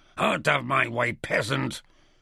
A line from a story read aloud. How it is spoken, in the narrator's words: Chok snarled